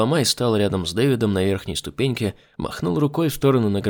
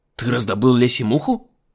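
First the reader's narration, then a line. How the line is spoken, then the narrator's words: Exclaiming. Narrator (Russian): воскликнул Лубломай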